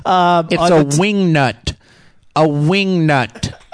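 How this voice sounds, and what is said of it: Imitates another person's voice, high-pitched. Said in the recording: “That's my David Letterman impression ... He does that high.”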